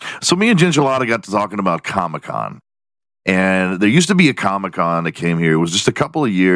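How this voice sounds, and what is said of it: Usual voice. Nothing is said of it.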